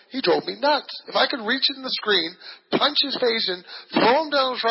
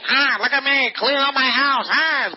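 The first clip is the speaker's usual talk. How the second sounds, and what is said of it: Imitates an old Jewish man's voice. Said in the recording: “doing this old Jewish guy going”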